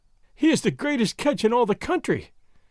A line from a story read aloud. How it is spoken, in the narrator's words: Doña Catalina was wailing